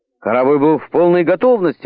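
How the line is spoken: Exclamation. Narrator (Russian): воскликнул Баннерман

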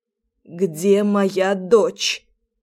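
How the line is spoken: Hoarse rough voice. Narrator (Russian): Голос охрипший и грубый, словно я всю жизнь курила в день по две пачки сигарет

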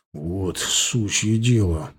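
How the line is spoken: Grumbled. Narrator (Russian): буркнул Женя

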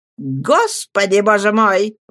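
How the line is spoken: Exclamation. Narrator (Russian): воскликнул мистер Микобер

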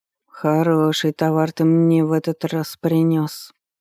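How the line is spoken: Lazy drawl, lip-smacking. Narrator (Russian): произнес старик, лениво растягивая слова, да еще и противно причмокивая

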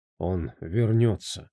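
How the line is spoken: Mutter. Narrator (Russian): пробормотал Хаким

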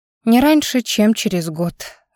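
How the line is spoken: Sighing. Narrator (Russian): вздохнула я

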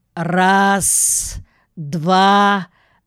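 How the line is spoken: Auctioneer's shout. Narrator (Russian): выкрикнул аукционист

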